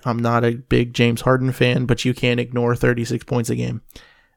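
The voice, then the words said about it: Voice cracks mid-sentence. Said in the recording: “Voice crack. Wow. You can tell it's early. My voice is cracking.”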